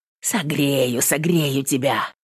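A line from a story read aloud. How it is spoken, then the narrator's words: Muttering. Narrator (Russian): бормотал он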